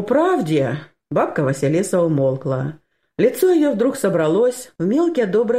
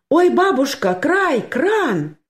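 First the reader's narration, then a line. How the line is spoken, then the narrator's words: Sudden cry. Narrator (Russian): скрикнула вдруг Анюта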